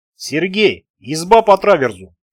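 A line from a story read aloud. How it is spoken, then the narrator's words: Shouting. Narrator (Russian): крикнул капитан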